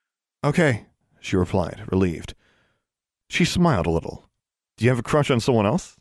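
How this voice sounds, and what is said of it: Usual voice. Nothing is said of it.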